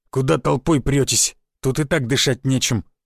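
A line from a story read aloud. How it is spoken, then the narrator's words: Grumble. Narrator (Russian): буркнул Рыла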